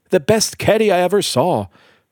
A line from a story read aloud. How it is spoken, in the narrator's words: shouted Mr